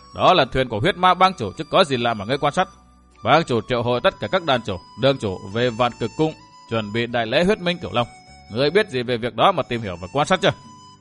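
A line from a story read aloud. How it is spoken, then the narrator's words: Arrogant laughter. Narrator (Vietnamese): Du Văn Tuấn bật cười ngạo nghễ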